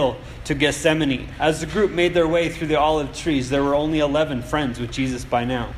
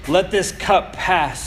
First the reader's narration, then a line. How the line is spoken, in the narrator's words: he cried